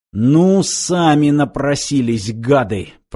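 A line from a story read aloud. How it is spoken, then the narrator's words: Growled. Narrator (Russian): прорычал Данила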